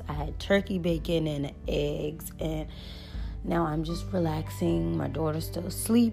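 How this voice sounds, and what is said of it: Scratchy, tired morning voice. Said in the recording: “I am super tired this morning ... my voice sounds scratchy. I'm just waking up”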